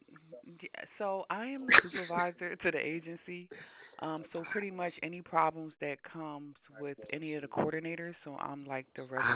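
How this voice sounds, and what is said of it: American accent. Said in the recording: “This is the only voice that sound American”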